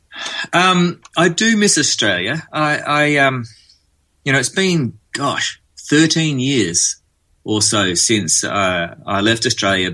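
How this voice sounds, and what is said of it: Australian accent. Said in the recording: “a very good Australian accent”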